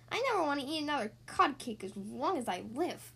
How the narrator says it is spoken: grumbled Scout

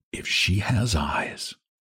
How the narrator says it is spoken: Val murmured to himself

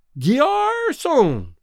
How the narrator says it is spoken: he suddenly cried, in a voice that paralyzed every knife and fork in the restaurant

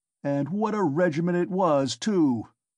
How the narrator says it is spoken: cried Ilya Petrovitch, much gratified at this agreeable banter, though still sulky

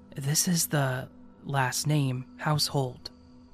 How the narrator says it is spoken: slowly whispered

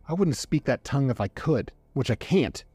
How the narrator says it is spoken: it growled

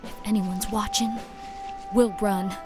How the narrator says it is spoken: I whispered

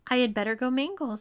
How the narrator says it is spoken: said Tom nervously

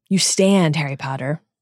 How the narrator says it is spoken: he says

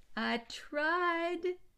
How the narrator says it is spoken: cried

